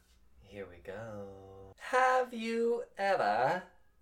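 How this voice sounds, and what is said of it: Put-on British accent. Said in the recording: “Why are you British all of a sudden?”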